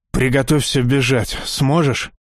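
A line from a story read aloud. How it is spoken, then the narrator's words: Hoarse rasp. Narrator (Russian): прохрипел Александр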